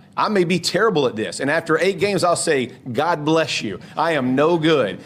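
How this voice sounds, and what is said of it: Southern American accent. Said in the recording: “that much of a Southern accent ... he's a Georgia guy, North Carolina. I mean, he's a Southern guy.”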